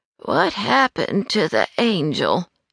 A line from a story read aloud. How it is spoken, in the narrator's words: kept muttering